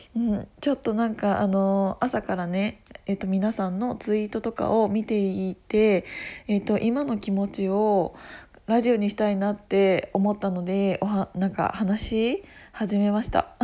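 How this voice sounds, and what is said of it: Hoarse voice. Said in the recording (Japanese): “声が枯れて ... 声が枯れてるんですけど”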